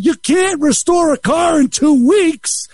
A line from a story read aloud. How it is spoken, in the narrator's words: yell